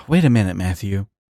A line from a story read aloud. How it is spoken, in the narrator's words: he sighed